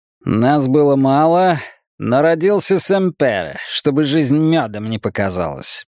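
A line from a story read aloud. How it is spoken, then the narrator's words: Sarcastic, curt. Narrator (Russian): язвительно бросил он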